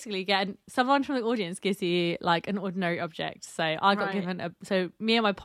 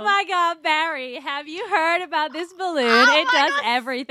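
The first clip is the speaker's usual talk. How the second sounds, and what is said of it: Exaggerated thick American accent. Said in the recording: “thickest American accent that I learned from all my YouTube videos”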